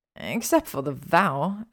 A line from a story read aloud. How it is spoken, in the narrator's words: Hermione snarled